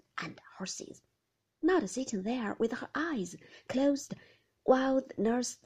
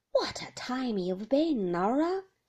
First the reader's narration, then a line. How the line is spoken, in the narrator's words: grumbled the old lady